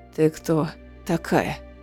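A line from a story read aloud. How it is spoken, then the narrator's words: Hoarse question. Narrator (Russian): хрипло спросила Манона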